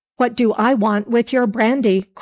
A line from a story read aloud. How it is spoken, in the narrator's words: cried the man in a rage